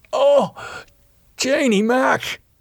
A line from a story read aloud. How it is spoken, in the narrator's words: He gasped